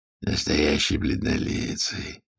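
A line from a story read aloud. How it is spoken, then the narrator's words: Through gritted teeth, English. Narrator (Russian): процедил он по-английски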